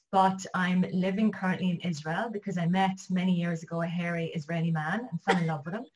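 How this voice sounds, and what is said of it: Irish accent. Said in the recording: “I'm Irish, as you can get from my accent”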